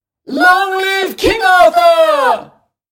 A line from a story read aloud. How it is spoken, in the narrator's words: Everybody shouts